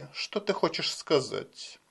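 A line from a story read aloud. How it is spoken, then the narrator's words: Very quiet speech. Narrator (Russian): Брейди заговорил так тихо, что его слышал только Деннис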